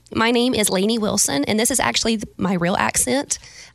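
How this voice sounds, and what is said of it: Put-on Valley Girl accent. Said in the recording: “I can do a Valley Girl.”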